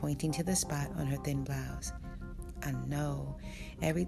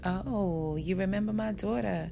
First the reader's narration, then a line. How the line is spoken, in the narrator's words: Bang said sarcastically